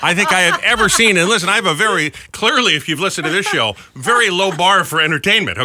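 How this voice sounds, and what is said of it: Usual voice. Nothing is said of it.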